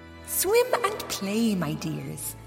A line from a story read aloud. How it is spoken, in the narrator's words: she told them, her voice as sweet and thick as honey